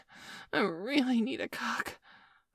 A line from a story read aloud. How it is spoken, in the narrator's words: I moaned breathlessly as my orgasm steadily built up inside of me